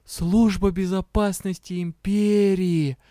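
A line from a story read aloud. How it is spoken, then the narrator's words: Delighted drawl. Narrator (Russian): восторженно протянула я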